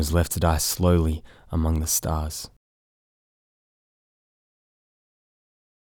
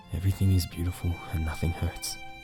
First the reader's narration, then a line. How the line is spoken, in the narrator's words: he whispered